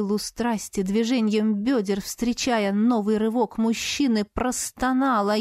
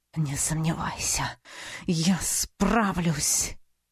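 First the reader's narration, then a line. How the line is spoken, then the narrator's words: Satisfied exhale. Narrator (Russian): В момент наивысшего удовлетворения выдохнул он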